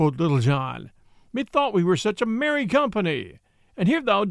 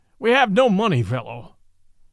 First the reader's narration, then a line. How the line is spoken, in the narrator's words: said the lean friar harshly